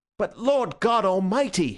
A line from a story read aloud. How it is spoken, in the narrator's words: he cried out